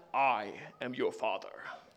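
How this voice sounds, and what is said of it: Darth Vader impression. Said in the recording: “That's the best Vader impression I could do.”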